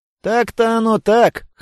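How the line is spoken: Snort from behind. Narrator (Russian): хмыкнул позади меня Диса

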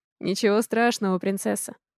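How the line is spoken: Gentle. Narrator (Russian): мягко говорит он Алисе

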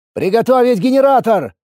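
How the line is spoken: Shout. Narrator (Russian): крикнул я

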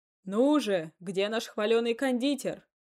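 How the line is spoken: Tipsy guest shouting. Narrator (Russian): крикнул кто-то из толпы подвыпивших гостей

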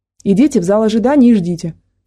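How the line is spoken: Dry man's voice. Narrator (Russian): сухо произнес мужчина

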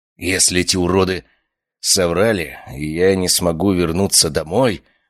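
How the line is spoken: Growled. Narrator (Russian): прорычал я

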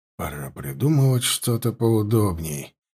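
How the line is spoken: Mutter. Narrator (Russian): пробормотал он

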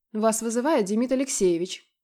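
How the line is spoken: Curt, rude. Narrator (Russian): бросает мне грубо

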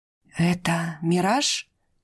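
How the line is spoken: Breathed out. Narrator (Russian): выдохнул он

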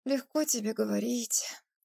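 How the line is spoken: Sighing. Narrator (Russian): вздохнула Ирина

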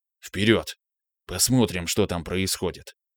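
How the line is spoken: Whispered. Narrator (Russian): шепотом произнес я

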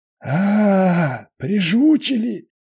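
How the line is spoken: Hoarse. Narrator (Russian): хрипит он

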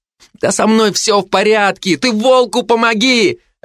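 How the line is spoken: Shouting. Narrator (Russian): Опять заорал он

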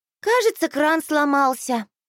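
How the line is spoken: Sighing. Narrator (Russian): вздохнула я

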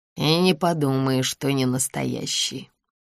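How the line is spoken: Grumbling. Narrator (Russian): проворчал Максим Георгиевич

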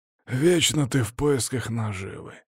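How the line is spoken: Displeased grumbling leader. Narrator (Russian): недовольно проворчал второй, который был у них, судя по всему, за главного

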